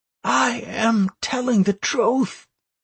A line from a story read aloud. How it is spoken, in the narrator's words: said Anastaria hoarsely, half choked into silence